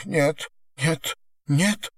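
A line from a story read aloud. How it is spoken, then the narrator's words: Sobbing. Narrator (Russian): всхлипывала она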